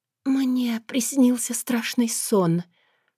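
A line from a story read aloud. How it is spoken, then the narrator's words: Whisper breaking into sobs. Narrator (Russian): прошептала я искусанными губами и заплакала навзрыд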